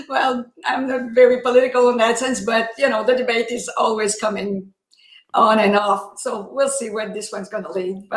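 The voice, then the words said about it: French Canadian accent. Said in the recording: “that accent is lovely ... it's from Canada, from Quebec. ... French Canadian.”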